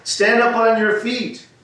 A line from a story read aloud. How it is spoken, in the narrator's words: he called out